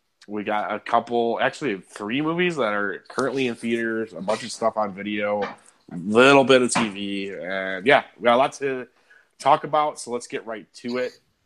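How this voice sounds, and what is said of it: Sick, slightly odd-sounding voice. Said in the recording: “I am now sick as a result of the moving ... if I sound a little weird, that's why”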